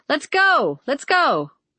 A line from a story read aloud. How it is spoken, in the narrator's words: someone shouted from the growing all-day line